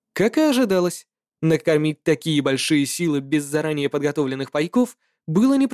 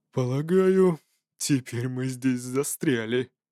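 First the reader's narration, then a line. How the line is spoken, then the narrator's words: Noisy grumble. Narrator (Russian): шумно проворчал Хейхурст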